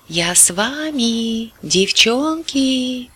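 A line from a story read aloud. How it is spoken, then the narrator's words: Drawled conspiratorially. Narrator (Russian): словно заговорщик протянул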